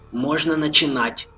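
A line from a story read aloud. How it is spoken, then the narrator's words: Whisper into microphone. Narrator (Russian): шепнул Влад в микрофон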